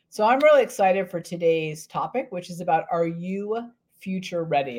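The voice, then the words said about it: Slightly hoarse, strained voice. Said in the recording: “I apologize for my voice. I have a little bit of a sore throat”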